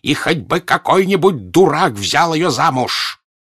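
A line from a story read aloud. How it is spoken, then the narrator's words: Anguished bitter shout. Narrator (Russian): с тем озлоблением, которое может быть только у человека, который любит, он, видимо, сам, страдая, прокричал ей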